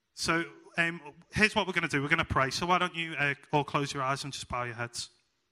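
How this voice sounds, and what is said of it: Speaks with a noticeable accent. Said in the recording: “my accent”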